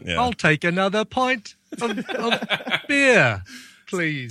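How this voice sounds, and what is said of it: Put-on Bristol-area English accent. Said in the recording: “you've really brought out the Bristol area kind of part of the accent ... Just dead on. It's dead on.”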